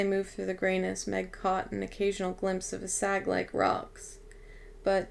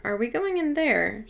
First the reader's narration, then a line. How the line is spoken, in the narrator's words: she asked nervously